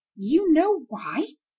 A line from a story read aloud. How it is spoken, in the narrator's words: exclaimed the widow